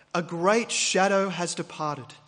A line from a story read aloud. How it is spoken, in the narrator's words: said Gandalf